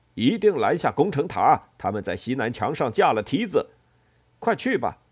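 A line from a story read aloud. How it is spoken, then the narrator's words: Loud shout. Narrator (Chinese): 戴奥诺斯大叫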